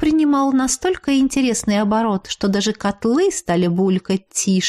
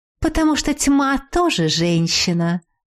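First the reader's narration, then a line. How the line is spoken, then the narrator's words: Young witch's snide snort. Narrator (Russian): Ехидно фыркнула ведьмочка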